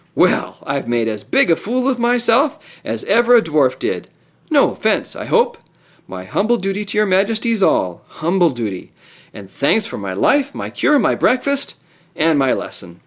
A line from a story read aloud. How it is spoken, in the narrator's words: he burst into a great laugh and said